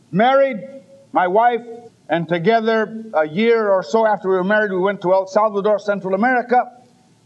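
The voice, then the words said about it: Slight Spanish accent. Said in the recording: “Should you detect a slight Spanish accent”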